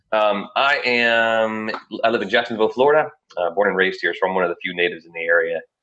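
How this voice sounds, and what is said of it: Slightly raspy voice. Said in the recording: “My voice is a little raspy today because I come down with something”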